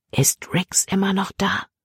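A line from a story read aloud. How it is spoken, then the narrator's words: Whispering. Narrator (German): flüsterte Libby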